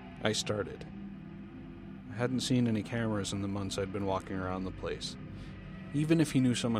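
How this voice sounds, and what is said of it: Usual voice. Nothing is said of it.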